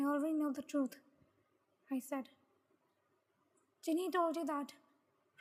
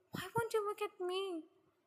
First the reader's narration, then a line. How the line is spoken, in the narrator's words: Yuna cried a mess